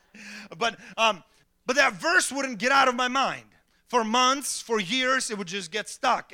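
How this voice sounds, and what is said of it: Speaker with a noticeable accent. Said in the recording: “As you can hear, I have an accent. Some of you don't hear it anymore.”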